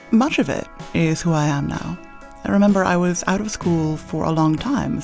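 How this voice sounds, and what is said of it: Ridiculous-sounding accent. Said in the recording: “my accent is ridiculous.”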